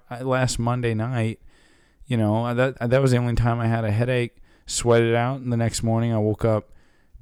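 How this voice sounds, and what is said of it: Low, sick voice with cough. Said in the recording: “I got a cough. My voice is, a little low. ... My throat was like slightly sore”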